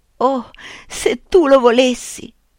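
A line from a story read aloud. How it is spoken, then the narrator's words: Sobbing. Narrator (Italian): singhiozzò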